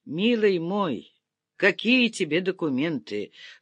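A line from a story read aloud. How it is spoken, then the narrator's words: General sighing. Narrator (Russian): вздохнул генерал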